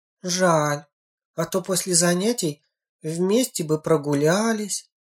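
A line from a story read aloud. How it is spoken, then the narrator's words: Sighing. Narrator (Russian): вздохнула Ленка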